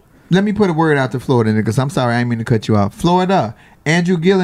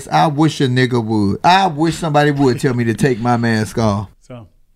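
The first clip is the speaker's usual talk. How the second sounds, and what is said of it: Exaggerated rapper-style voice. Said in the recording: “In my best rapper voice,”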